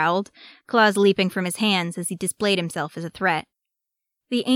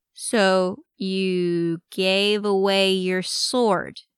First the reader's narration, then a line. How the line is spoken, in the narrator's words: he said slowly, like the words Arcadius were saying weren't making sense